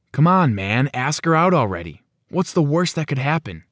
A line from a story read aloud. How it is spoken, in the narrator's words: my friends would ask me, super annoyed with me always sighing about Britta